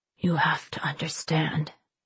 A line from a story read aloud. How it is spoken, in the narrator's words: he said faintly